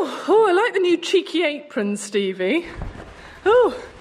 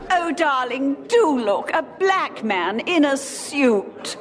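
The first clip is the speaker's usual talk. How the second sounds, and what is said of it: Posh voice imitating another person. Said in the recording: “if I sounded like her, I'd be using the classic posh phrase”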